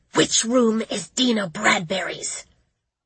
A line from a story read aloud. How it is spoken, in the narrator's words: I demanded of her in a menacing whisper